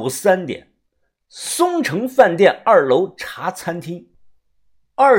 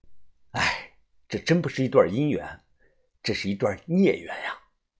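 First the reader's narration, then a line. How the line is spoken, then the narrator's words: Inner sigh. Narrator (Chinese): 我心中叹道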